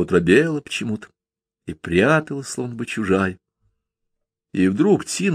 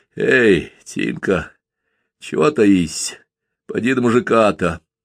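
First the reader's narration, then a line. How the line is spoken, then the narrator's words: Hoarse, awkward tender call. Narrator (Russian): позвал хрипло, трудно и неловко давались ему первые ласковые слова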